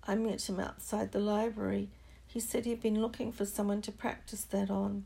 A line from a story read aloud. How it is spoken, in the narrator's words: said Neville shakily